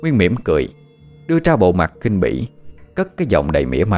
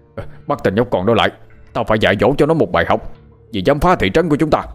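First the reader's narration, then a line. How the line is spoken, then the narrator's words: Enraged loud shout. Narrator (Vietnamese): Chú Sáu trong người nóng như lửa đốt, cánh tay ông ta chỉ về phía Nguyên mà hét lớn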